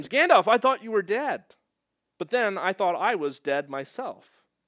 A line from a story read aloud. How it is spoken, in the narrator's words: he exclaims